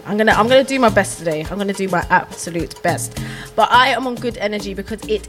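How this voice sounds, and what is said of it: Congested voice from a cold. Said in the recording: “excuse my voice at the moment, guys, I sound a little bit congested ... I sound a little bit congested”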